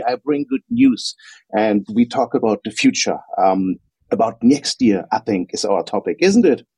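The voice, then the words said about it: German accent. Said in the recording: “As you probably hear from my voice, I'm from Germany”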